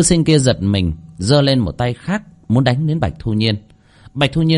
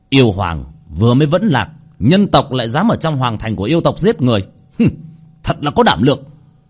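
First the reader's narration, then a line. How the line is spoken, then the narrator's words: Loud angry voice. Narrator (Vietnamese): Bạch Thu Nhiên hiện ra một gương mặt tức giận lớn tiếng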